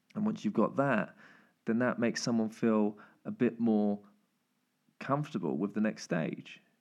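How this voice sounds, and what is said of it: Voice going hoarse. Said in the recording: “I realize I am losing my voice a bit.”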